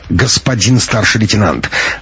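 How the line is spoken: Sharp interruption. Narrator (Russian): резко перебила Пущина и Раида

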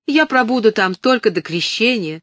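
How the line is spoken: Exclamation. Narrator (Russian): воскликнула она

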